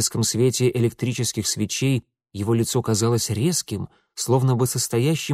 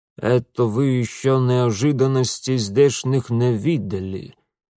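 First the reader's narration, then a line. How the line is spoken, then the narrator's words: Muffled guttural grumble. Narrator (Russian): глухо и как-то утробно проворчал Свинельд Карлович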